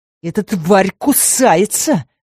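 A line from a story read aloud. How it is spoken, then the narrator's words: Man hissing. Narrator (Russian): зашипел мужчина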